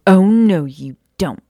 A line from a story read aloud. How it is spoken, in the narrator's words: Maya said firmly